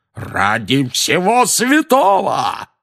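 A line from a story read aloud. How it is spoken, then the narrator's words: Roaring. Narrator (Russian): взревел дядя Вернон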